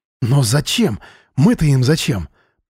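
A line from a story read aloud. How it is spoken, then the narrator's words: Shocked whisper. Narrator (Russian): пораженно шептал Миша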